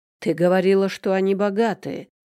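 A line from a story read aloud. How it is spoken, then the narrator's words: Accomplice's growl. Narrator (Russian): рычал подельник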